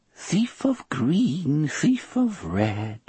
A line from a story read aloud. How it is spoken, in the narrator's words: she sang in a lilting, funny voice